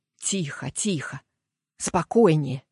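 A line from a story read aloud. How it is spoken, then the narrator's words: Self-soothing mutter. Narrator (Russian): забормотал я вслух, стараясь успокоить себя собственным голосом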